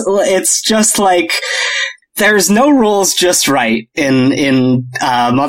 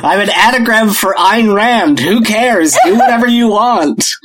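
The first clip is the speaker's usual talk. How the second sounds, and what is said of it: Imitates a video game character's voice. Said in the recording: “my impression of Andrew Ryan from Bioshock”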